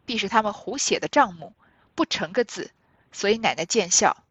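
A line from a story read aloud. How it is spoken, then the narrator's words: Amused, laughing. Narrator (Chinese): 凤姐又看着笑，她便说道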